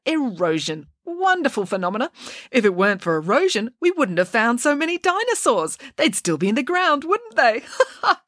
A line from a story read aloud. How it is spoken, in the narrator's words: laughed out loud at her own observation